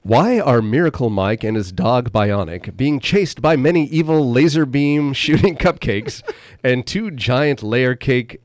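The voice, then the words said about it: Announcer-style radio voice. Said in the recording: “in my radio voice ... Radio voice.”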